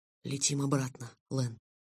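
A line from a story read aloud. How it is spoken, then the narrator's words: Whisper. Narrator (Russian): прошептал я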